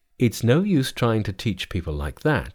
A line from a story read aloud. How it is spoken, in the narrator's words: said Tripitaka to himself gloomily